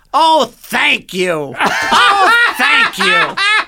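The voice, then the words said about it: Imitates another person's voice. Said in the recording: “I do a Gilbert impression.”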